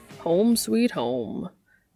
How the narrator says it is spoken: Dean drawls

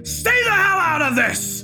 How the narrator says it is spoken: He screamed

